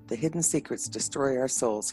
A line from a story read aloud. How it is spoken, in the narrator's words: whispered